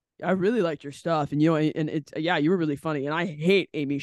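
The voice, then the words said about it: Imitates a certain type of male fan. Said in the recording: “my my imitation ... my my imitation of like ... a very specific type of man that comes up to me after a show”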